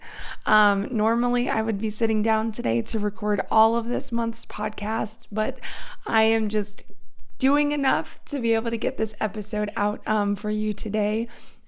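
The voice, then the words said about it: Strained, worn-out voice. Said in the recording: “my voice is shot. It is not with me. ... my voice has a limit, and I have surpassed it.”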